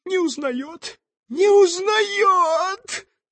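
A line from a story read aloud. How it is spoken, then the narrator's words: Woman sobbing out. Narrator (Russian): взрыдала красавица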